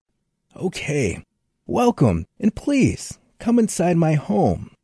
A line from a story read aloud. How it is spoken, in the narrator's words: said Tom happily